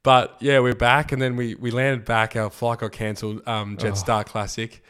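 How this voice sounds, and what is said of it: Rough, husky sick-sounding voice. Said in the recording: “My voice is just still not right, but sounds kind of sexy.”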